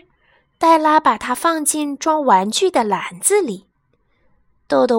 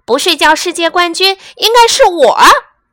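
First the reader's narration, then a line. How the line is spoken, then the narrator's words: Croaking. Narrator (Chinese): 豆豆蛙呱呱叫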